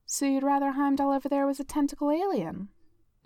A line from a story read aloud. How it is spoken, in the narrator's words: Jessica asked dryly